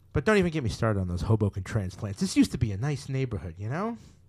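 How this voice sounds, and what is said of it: Put-on New Jersey accent. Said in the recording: “your New Jersey impression? ... it's very Sopranos, yeah”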